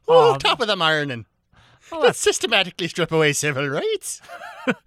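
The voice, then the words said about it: Put-on fake Irish accent. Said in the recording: “my impression of every Republican ... an Irish American ... Madonna'd the accent”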